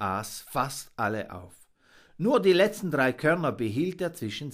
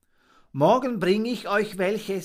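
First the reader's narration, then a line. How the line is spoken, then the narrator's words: Plain. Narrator (German): sagte der Täuber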